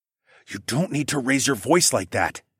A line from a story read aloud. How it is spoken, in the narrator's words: I whispered